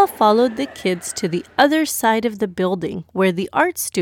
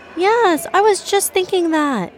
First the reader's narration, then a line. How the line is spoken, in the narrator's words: Jannah immediately exclaimed